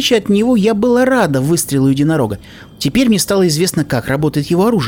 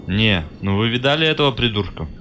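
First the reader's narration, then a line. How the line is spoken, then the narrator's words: Grumbling. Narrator (Russian): продолжал ворчать Джек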